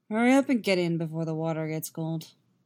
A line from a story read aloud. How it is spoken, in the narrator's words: Geralt grumbles